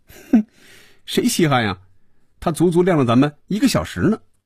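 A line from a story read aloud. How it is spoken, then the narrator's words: Laughing. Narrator (Chinese): 菲比也笑了，说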